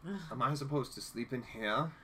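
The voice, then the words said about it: Imitates a character's accent, poorly done. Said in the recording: “I can't do his accent right.”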